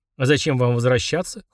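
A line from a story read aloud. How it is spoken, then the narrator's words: Snorted. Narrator (Russian): хмыкнул Фрундорог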